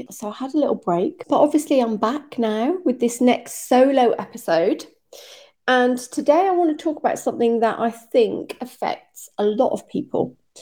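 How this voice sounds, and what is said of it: Sick, slightly rough voice. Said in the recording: “as you may be able to hear from my voice, I was really sick last week and I've still got a little bit of some sort of lurgy going on”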